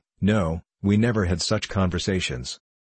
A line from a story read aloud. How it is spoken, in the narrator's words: Krestinsky answered firmly